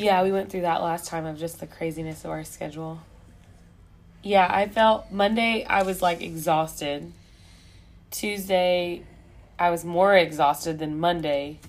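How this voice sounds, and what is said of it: Raspy, worn-out voice. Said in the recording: “as you can hear, my voice is still not ... a little bit more of like the raspiness”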